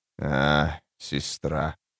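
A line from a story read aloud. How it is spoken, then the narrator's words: Sighing. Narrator (Russian): вздохнул Тлен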